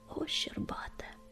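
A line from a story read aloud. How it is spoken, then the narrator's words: Whisper. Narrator (Russian): прошептал он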